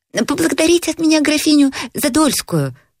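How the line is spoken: Sudden shout from above. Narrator (Russian): вдруг крикнул он сверху

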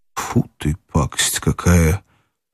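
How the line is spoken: Disgusted mutter. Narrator (Russian): пробормотал опять Иван Ильич и, морщась

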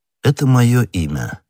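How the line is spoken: Calm. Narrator (Russian): спокойно сказал Атос

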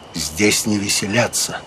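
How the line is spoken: Quiet. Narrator (Russian): Огюст де Калинкур тихо сказал

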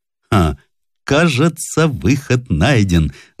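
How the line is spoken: Laughing. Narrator (Russian): засмеялся Смородинов

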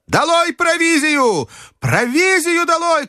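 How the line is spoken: Shouted. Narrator (Russian): крикнул снова доктор

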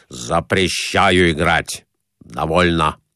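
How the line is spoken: Stern. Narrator (Russian): строго сказав

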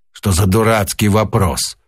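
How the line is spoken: Rude, madman. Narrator (Russian): сумасшедший грубо ответил

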